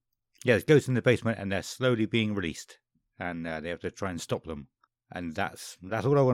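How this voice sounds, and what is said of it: Usual voice. Nothing is said of it.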